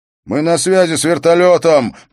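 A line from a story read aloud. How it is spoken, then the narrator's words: Shouting over noise. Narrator (Russian): прокричал один из них сквозь шум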